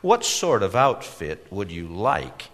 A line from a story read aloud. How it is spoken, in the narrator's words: asked